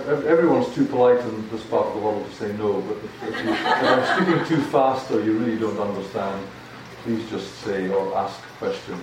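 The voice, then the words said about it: Scottish accent. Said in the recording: “I've got a Scottish accent, so it's not quite like the English that you hear normally.”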